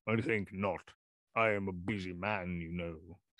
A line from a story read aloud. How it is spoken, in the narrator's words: said the rector blandly